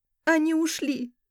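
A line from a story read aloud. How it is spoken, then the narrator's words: Sobbing. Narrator (Russian): всхлипнула я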